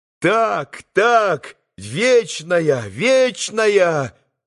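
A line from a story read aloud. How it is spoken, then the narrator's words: Boys' ringing, tender shouts. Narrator (Russian): прокричали все мальчики своими звонкими голосами с умиленными лицами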